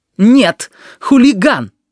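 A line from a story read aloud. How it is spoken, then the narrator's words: Sharp objection. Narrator (Russian): резко возразила Нелли Ивановна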